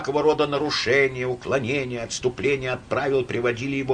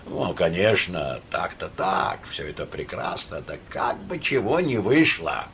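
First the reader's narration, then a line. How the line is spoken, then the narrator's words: Quiet. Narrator (Russian): говорил тихо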